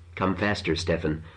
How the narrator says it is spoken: the girl said timidly

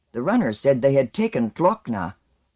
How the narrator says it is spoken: Umeksaman said sharply

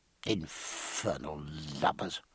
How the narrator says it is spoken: he muttered to himself

